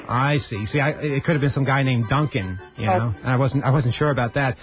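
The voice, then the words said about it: Non-local accent. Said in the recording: “as you can probably tell from my accent, I'm not from around here”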